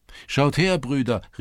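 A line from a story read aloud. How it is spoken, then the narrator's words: Called out. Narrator (German): rief ein anderer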